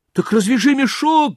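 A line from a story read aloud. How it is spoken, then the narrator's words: Small child shouting. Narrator (Russian): закричал маленький Клаус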